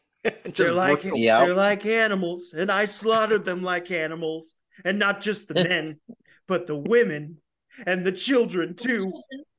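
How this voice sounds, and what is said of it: Hayden Christensen impression. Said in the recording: “my Hayden Christensen impression... That was my attempt at it. Yeah, it was as good as acting as in that movie.”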